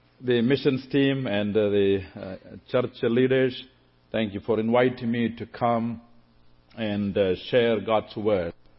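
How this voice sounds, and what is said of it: Southern Indian English accent. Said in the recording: “I come from southern part of India, and thus, therefore I have a southern accent”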